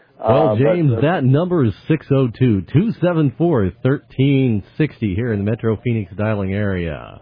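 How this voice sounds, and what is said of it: Polished announcer radio voice. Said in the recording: “radio voice. That is just so good. ... you don't sound like that when we talk with you in the office”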